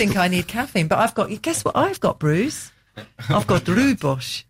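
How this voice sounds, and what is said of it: Usual voice. Nothing is said of it.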